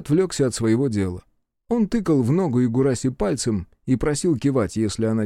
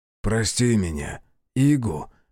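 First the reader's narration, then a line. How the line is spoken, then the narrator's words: Whisper. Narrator (Russian): прошептал Дие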